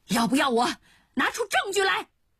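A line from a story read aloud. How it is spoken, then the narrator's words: Angry young woman shouting. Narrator (Chinese): 女大学生很生气，又拍桌子喊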